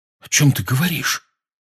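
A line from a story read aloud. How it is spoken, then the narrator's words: Frightened question. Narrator (Russian): испуганно спросил Рон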